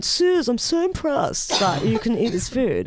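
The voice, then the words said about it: Impression of an ex-boyfriend's voice. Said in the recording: “Is that what he sounded like? ... Quite a good impression.”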